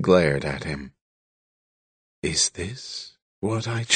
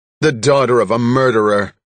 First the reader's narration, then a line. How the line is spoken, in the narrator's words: snapped